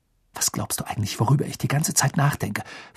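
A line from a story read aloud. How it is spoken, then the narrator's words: Worried whisper. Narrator (German): flüsterte sie mit großen, sorgenvollen Augen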